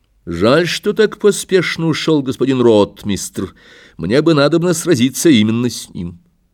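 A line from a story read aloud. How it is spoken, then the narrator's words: Loud. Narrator (Russian): громко сказал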